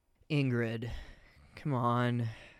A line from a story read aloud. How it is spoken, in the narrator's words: Felix groaned anxiously